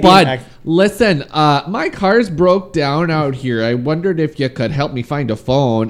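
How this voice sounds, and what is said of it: Bad put-on Canadian accent. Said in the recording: “Canadian ... That's my Canadian accent. ... That was very bad.”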